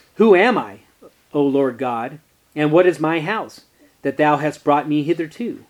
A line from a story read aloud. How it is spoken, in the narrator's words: David exclaimed